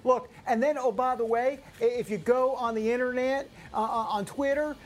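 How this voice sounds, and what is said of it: Put-on Southern accent. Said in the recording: “I don't know why I did a Southern accent there”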